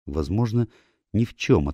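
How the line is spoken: Uncertain. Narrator (Russian): ответила она, но как-то неуверенно

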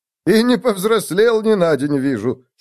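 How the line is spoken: Giggling. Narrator (Russian): хихикнул Отто

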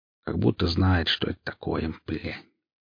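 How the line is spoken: Grumbling. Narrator (Russian): Снова начал ворчать непонятно кто из троих

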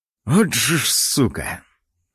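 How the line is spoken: Muttered. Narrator (Russian): пробормотал я

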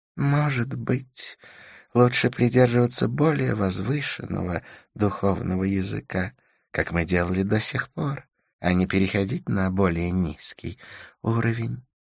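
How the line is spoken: Sighing. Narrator (Russian): вздохнул Идрис

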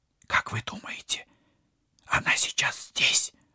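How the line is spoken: Whispered question. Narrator (Russian): шепотом спросила Полина

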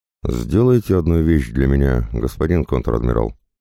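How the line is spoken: Old man's nearly calm voice. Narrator (Russian): вдруг сказал дед, и его голос звучал почти спокойно

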